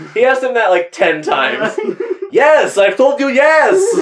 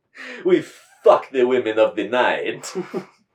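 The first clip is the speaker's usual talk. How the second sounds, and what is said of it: Thick put-on accent. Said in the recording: “it was the thick accent”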